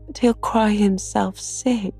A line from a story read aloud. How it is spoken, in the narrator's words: pleaded Meg, reproaching herself for deserting her boy